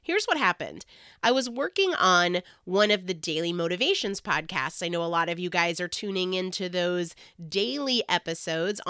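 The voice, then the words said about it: Hoarse, recovering voice. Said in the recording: “hopefully you can tell my voice is slowly coming back ... somebody that feels a little bit under the weather”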